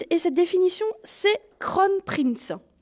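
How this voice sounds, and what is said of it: French accent on English words. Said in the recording (French): “Veuillez excuser mon accent.”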